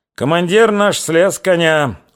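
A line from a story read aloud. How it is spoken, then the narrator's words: Smiling. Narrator (Russian): улыбнулся Федот Бодовсков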